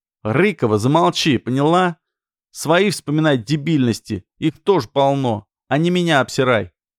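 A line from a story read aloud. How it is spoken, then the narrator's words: Shouting. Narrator (Russian): Снова крикнул Ермаков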